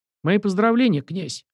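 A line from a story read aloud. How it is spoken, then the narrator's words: Cheerful, smiling. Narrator (Russian): весело улыбнулся он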